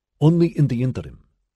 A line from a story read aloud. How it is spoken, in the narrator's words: she said, aware that she was speaking too quickly, hating herself for it, despising her sudden deference to the man